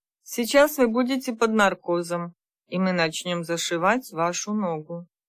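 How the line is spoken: Gentle caring doctor. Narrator (Russian): заботливый врач мягко сказал

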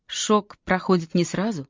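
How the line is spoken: Gentle reminder. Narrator (Russian): мягко напомнил Чейз

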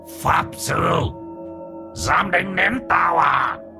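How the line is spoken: Hissing. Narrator (Vietnamese): Nó rít lên

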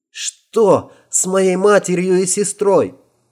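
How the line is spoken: Hysterical boy's cry. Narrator (Russian): вскрикнул пацан с истерикой в голосе

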